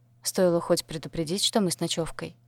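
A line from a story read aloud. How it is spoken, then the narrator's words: Grumble. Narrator (Russian): проворчала только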